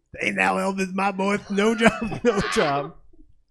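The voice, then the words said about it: Colonel Tom Parker impression. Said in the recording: “we've got a Colonel Tom Parker impersonator. Me!”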